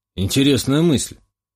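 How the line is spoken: Snorting remark. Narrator (Russian): хмыкнул Шувалов

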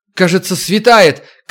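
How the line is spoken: Shout. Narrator (Russian): крикнула Макс

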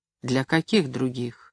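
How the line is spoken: Gloomy question. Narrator (Russian): мрачно спросил Максим

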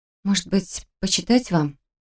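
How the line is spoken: Quiet offer. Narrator (Russian): Тихо предложила

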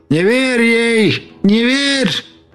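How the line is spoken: Shouting. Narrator (Russian): кричал

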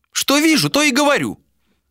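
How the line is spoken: Old woman snapping. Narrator (Russian): Огрызнулась старуха

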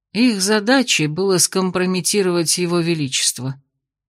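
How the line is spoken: Quiet, weary. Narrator (Russian): тихо и устало ответил мастер Викт

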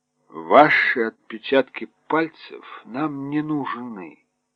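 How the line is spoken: Slow. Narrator (Russian): медленно проговорил Кеттерли

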